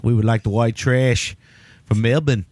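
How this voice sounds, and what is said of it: Put-on Australian accent. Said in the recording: “Melbourne is the only thing I can say in a proper Australian accent ... That's about as good as I can get there”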